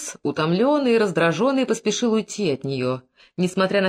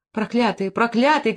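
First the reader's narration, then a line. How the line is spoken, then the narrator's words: Sobbing shout. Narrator (Russian): крикнула она, заливаясь слезами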